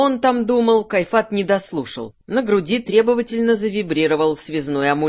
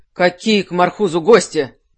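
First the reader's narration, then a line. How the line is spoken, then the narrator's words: Irritated question. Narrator (Russian): спросил он раздраженно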